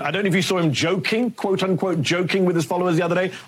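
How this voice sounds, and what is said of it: British accent. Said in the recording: “he's got that great British accent”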